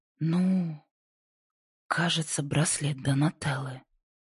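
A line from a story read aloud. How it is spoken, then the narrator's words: Breathed out in sudden realization. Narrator (Russian): выдохнула Инди, внезапно понимая всю суть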